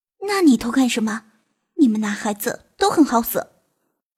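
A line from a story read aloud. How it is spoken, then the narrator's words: Quiet scolding. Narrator (Chinese): 唐静小声的骂他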